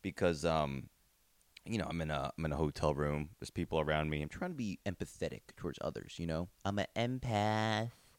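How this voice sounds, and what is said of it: Quiet monotone radio-DJ delivery. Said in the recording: “I sound a little bit, what do you call it? Monotone, AM radio DJ”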